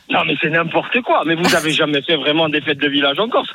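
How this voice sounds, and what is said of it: Corsican French accent. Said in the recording (French): “on adore non, l'accent corse”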